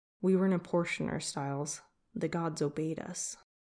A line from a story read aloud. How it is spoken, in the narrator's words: Whispering, he said